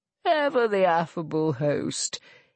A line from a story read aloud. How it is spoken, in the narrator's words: Gervase sneered